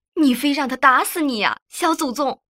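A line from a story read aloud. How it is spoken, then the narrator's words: Mother shouting urgently. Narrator (Chinese): 妈妈对我大声喊道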